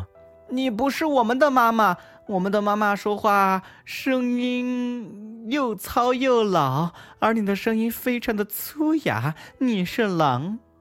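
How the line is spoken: Loud. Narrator (Chinese): 他们大声说

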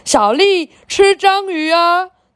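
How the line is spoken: Sudden loud father. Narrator (Chinese): 突然阿德的爸爸大声说

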